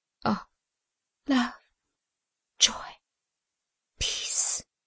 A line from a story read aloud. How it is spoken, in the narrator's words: she said, brokenly